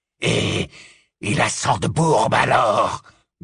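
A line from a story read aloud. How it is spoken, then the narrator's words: Growling. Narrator (French): grogna Greyback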